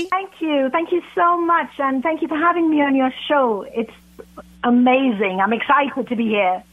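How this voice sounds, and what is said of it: British accent. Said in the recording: “I love the accent. It's fabulous. ... from across the pond”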